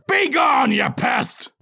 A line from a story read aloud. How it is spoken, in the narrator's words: He bellows